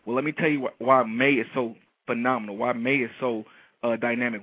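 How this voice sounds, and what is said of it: Excited, energetic, pumped-up voice. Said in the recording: “I don't know if you can hear it in my voice, but I am pumped.”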